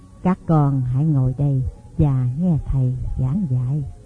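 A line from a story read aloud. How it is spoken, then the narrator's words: Soft, old man. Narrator (Vietnamese): Vị đạo sĩ già khẽ bảo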